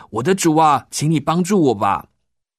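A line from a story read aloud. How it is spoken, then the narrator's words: Loud pleading. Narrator (Chinese): 这个妇人大声的说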